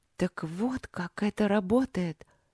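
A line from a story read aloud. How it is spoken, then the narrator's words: Amazed mutter. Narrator (Russian): пробормотала Аня изумленно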